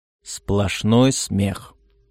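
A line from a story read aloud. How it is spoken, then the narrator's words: Through gritted teeth. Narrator (Russian): сказал Роберт сквозь зубы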